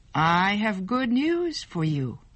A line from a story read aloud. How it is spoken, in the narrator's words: she said